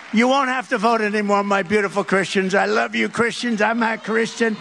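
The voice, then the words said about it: New York accent. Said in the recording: “he's got that New York accent.”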